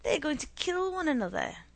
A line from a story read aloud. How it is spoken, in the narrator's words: cried